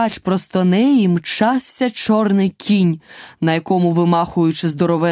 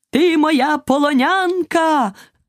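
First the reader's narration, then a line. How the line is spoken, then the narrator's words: Knight's shout. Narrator (Ukrainian): крикнув лицар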